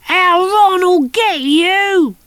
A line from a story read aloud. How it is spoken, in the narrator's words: It shouted